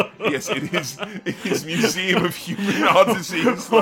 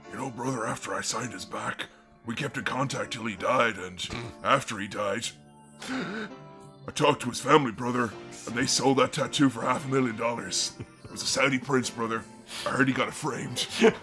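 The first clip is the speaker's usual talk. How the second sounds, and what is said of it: Older Hulk Hogan impression. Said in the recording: “I'm going to have to do an older Hogan voice.”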